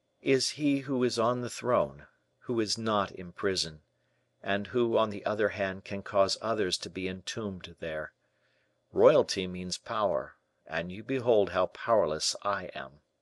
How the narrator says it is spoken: sadly replied the young man

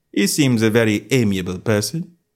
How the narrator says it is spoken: said Holmes, laughing

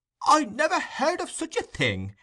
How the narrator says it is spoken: exclaimed the fat gentleman

